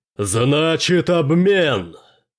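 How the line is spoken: Roared. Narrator (Russian): взревел Найлз Брэкович

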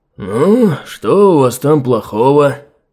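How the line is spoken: Gloomy question. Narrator (Russian): Мрачно осведомился он

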